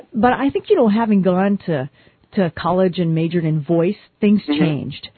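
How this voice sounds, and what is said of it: Slight foreign-sounding accent. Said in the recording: “are you originally from America? Because you have an accent. ... I've picked up a wee bit of accents from different countries.”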